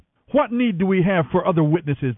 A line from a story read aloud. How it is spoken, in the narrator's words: they shouted